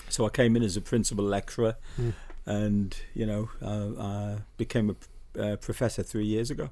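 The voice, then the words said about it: Newcastle (Geordie) English accent. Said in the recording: “I'm noticing with the accent... You're originally from the Newcastle, yeah?”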